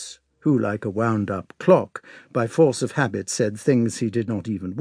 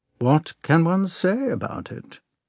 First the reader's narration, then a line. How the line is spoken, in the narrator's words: replied the prince in a cold, listless tone